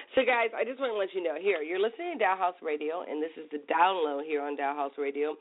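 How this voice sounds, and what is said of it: Hoarse, fading voice. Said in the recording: “let's hope my voice stays ... I've been losing my voice all week”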